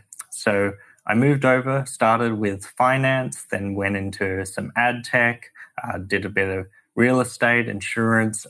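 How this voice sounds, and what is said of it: Australian accent. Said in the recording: “Sydney, Australia, where I'm from, as my accent belies”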